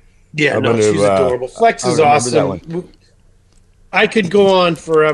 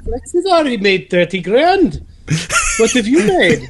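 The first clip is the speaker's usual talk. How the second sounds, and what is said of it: Good put-on Mrs. Doubtfire-like accent. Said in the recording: “How come she sounds like Mrs. Doubtfire? ... That was a good accent. It was a good accent.”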